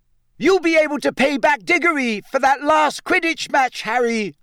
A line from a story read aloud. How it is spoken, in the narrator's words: shrieked Katie Bell, another of the Gryffindor chasers